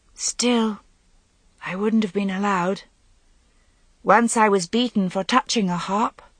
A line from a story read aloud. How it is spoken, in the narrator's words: said wistfully